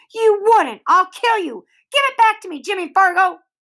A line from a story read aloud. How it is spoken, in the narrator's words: Sheila screamed